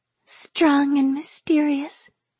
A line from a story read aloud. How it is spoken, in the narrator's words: Venka said dreamily